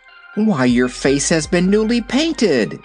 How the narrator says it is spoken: exclaimed Dorothy

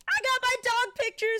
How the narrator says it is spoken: screamed Sweetie Pie

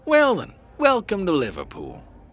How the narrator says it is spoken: he exclaimed

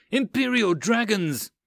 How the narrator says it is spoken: someone yelled

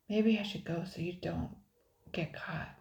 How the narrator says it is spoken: stammered Keaton

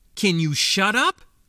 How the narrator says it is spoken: Ijak snapped

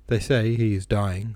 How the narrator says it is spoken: replied with a sigh

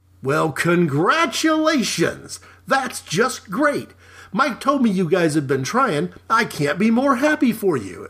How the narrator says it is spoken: an effusive Nate exclaimed

